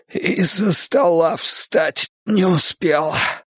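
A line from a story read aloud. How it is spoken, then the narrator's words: Hoarse wheeze. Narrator (Russian): прохрипел он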